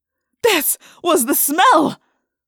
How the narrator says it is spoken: He cried

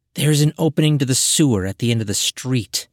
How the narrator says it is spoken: Catalusa replied, her tone harsh

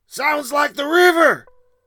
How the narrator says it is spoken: McCormick shouted

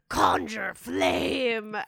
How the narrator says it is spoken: a rumble comes in her chest and she says

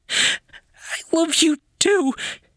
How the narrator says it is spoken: she sobbed

